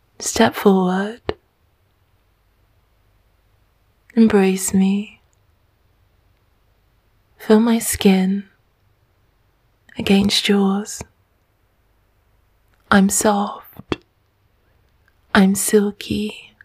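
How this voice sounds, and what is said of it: Smooth, sensual, slow soft voice. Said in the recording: “My voice is smooth and sensual”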